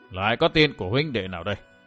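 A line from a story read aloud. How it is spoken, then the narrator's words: Old man muttering. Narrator (Vietnamese): Lão già lẩm bẩm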